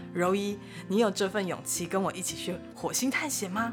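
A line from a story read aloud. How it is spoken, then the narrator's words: Smiling reply. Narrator (Chinese): 凯文笑笑的回他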